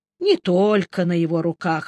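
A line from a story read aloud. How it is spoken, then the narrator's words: Grim objection. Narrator (Russian): мрачно возразил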